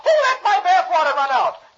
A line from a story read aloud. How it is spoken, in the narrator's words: Dagwood, seeing his hiding place is gone, yells